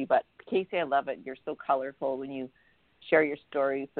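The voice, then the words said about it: Raspy voice. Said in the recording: “I'm gargling my throat so it wouldn't be so raspy.”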